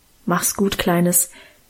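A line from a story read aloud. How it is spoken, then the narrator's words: Uncle's grumbling mumble. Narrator (German): sagte Onkel Ewertsbusch, brummelte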